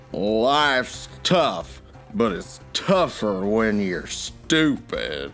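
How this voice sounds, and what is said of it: Imitates another person's voice. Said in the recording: “I can do a flawless impression of this person as well ... It was John Wayne”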